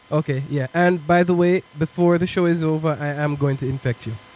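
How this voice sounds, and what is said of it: Voice sounds a little weird. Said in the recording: “Maybe my voice sounds a little bit weird, but I'm actually just getting over a cold.”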